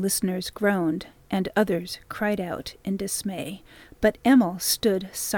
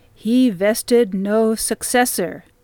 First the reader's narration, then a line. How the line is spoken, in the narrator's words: the big man boomed